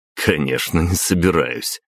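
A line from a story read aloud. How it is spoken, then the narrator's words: Chuckling. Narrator (Russian): хохотнул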